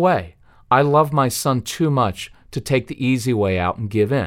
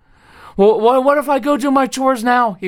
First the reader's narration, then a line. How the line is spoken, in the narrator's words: pleaded